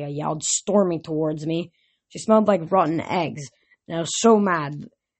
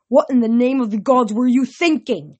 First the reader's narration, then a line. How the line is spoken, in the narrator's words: bellowed